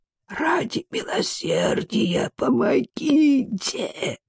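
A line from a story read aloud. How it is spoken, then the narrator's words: Hoarse wheeze. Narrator (Russian): просипел Цы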